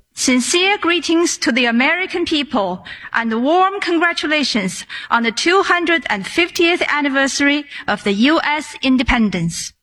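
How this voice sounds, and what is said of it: Somewhat high-pitched male voice. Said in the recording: “weird voice. It's a little high-pitched”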